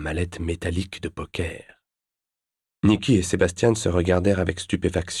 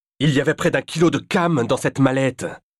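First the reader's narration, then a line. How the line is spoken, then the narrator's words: Exclaiming. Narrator (French): s'écria Sébastien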